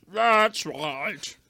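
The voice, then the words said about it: Imitates another person's voice. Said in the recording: “as good as an impression I think we're going to get”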